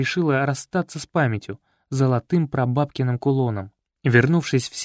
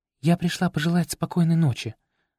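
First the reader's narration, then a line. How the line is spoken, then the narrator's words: Modest girlish voice. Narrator (Russian): скромно потупившись, произнесла она девочкиным голосом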